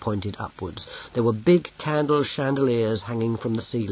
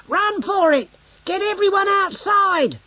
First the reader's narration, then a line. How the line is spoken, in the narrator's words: Bracando shouted